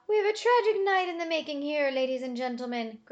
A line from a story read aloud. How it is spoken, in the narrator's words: groaned Bismarck